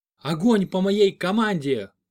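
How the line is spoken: Shouted. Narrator (Russian): крикнула Клава

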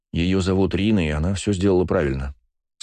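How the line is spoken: Calm tone. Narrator (Russian): спокойным тоном произнес я

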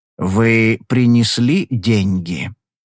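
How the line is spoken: Slow question. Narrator (Russian): медленно спросил

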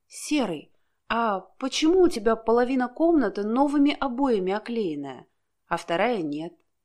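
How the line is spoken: Plain. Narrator (Russian): спросила она

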